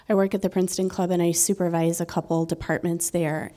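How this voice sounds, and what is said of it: Hoarse voice from a cold. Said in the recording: “I'm getting over a cold, so excuse my voice.”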